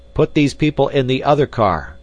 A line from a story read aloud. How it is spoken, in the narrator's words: shouted the stranger to Clayton